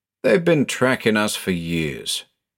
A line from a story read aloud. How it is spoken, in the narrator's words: said, gloomily